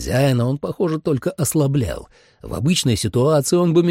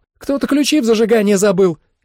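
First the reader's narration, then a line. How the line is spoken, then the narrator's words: Shout. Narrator (Russian): крикнула она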